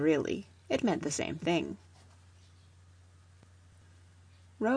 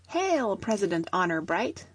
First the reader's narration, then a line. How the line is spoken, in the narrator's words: they all cried